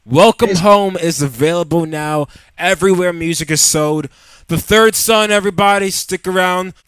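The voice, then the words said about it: Strained, failing voice. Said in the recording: “I am losing my voice”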